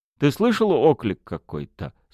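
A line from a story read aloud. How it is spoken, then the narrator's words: Plain. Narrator (Russian): спросила Проня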